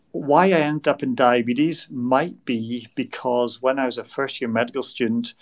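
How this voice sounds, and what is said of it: Scottish accent. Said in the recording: “you might be able to tell from my accent that I'm not from Canada ... I grew up in Scotland.”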